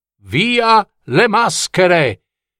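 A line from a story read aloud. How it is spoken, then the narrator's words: Someone shouting. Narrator (Italian): qualcuno gridò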